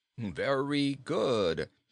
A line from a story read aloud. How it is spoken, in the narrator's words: exclaimed King Kitticut